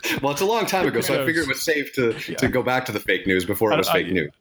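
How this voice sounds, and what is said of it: Deep baritone radio voice. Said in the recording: “your great baritone radio voice”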